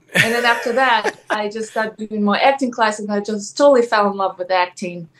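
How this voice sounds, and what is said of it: Ukrainian accent in English. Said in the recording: “yes, accent. She clearly came over to America... It's Ukraine, right?”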